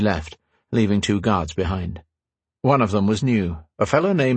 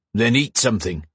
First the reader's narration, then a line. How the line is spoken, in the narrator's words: the mean-tempered guard snapped